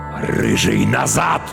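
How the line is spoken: Commanding growl. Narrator (Russian): теперь зарычал уже одинокий воин повелительно

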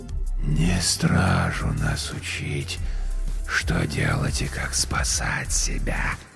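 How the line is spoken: Rustling whisper inside head. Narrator (Russian): прозвучал у меня в голове шелестящий шепот короля

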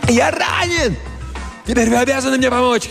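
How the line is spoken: Shouting while climbing uphill. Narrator (Russian): кричал Джомфри, карабкаясь вверх по холму

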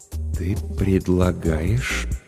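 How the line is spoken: Hesitant, tentative. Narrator (Russian): начал Денис неуверенно, словно пробуя слова на вкус

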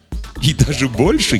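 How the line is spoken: Giggling. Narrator (Russian): хихикнул Круз

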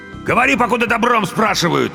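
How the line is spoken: Barked, harsh. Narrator (Russian): рявкнул второй

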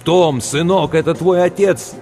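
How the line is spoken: Shouted. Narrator (Russian): Крикнуть

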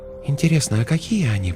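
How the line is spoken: Whisper. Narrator (Russian): прошептала Светлана

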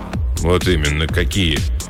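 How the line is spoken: Gloomy grunt. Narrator (Russian): мрачно буркнул Вейнбаум

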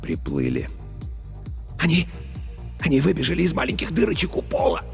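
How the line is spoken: Passionate whisper. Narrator (Russian): Страстно зашептал Старлей

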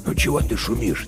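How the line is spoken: Quiet question. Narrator (Russian): тихо спрашивал он

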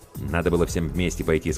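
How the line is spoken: Plain. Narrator (Russian): сказал Иван

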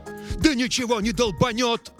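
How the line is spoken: Yelled. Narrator (Russian): заорал Эрл

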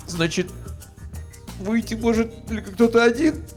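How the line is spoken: Sudden sob. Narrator (Russian): неожиданно всхлипнул я

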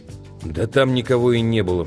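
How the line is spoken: Grumbling. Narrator (Russian): пробурчал он

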